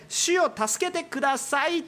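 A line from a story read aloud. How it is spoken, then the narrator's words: Shout. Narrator (Japanese): と叫ぶ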